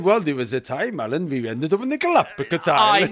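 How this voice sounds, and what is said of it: Welsh accent impression of Luke Evans. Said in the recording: “That's your Welsh accent. ... That went a bit Halong Bay at one point.”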